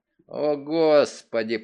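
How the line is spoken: Groaning. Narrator (Russian): простонал Грин

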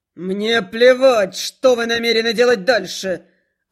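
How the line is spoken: Furious bark. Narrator (Russian): Взбешенный этим спором, рявкнул Милос

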